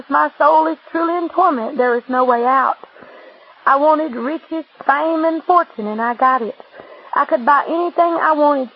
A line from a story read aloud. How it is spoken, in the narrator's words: she said